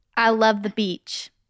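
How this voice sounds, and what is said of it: Southern American accent. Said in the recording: “You just sound like you had a southern accent.”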